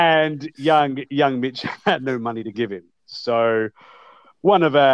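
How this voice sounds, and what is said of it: Usual voice. Nothing is said of it.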